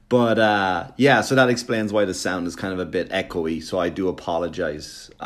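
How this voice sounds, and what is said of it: Strong regional accent. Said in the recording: “They sound funny like I do... I like that their accent is ridiculous. So is mine.”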